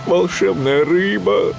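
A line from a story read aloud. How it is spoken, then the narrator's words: Pleading. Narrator (Russian): взмолился он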